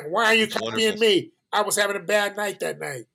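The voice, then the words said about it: Imitates another person's voice. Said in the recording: “You do a great imitation, by the way.”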